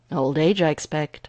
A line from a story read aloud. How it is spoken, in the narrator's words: Gregor replied cheerfully